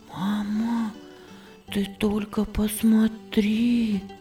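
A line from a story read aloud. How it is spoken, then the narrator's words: Whispered. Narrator (Russian): шептала Виргиния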